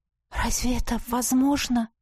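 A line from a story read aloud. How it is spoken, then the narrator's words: Shocked breathless exhale. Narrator (Russian): Потрясенно выдохнула я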